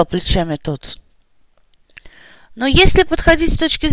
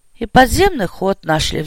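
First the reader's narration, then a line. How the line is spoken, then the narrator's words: Sighing. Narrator (Russian): вздохнул майор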